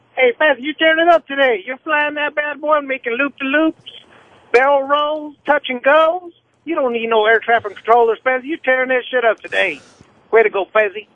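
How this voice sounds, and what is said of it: Crazy exaggerated comic voice. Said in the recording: “that was some fucking funny shit. That was a funny fucking call done in a crazy ass voice.”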